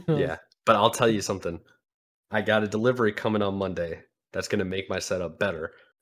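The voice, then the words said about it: Slightly congested, sick-sounding voice. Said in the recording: “I came back sick ... you can probably notice in my voice maybe a little bit ... congested”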